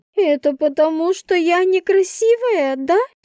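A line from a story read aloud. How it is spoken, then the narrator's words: Sobbing. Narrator (Russian): всхлипнула Инна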